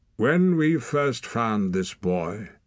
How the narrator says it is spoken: said Finkedin, his voice ringing clear

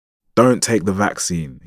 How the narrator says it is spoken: said, raising his voice, warning

